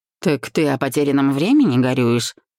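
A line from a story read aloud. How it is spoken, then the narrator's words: Chuckling. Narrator (Russian): хохотнул я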